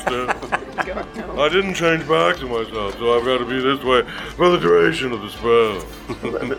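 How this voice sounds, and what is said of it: Performed character voice. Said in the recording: “I'm stuck in this character voice.”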